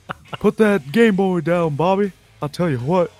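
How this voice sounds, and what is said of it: Imitates a cartoon character's voice. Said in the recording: “I can do a little more Hank”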